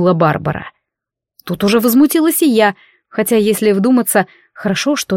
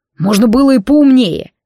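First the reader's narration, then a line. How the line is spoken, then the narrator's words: Barking. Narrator (Russian): рявкнул некромант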